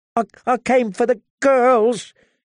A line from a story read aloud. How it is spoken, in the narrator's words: he whimpered